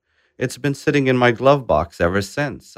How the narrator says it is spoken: Adal Saib shouted back and laughed

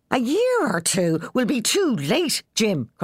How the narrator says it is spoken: cried Moll

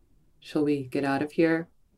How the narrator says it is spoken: said in a suave, euphemistic sounding tone

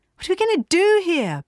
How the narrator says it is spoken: Bee shouted

